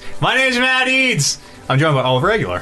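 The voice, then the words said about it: Yelling, loud voice. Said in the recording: “I'm yelling because we have these new mics ... you don't need to yell”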